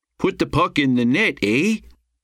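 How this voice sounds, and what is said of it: Exaggerated Canadian accent. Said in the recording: “She affected an exaggerated Canadian accent.”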